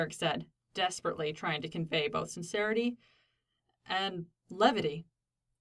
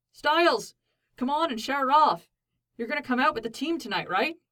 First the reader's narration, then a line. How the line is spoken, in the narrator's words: Scott called out from the edge of the field